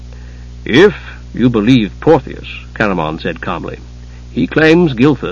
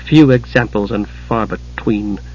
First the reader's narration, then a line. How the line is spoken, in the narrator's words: Tika muttered